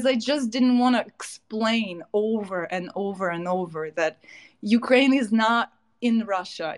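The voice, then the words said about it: Foreign accent. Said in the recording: “people would hear my accent and right away ask, where are you from?”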